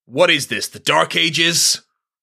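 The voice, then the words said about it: Imitates a TV character's voice. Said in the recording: “terrible McCoy impression ... That's pretty good”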